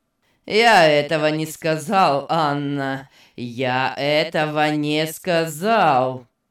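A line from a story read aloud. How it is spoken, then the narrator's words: Cold, repeating. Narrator (Russian): холодно повторил Беннет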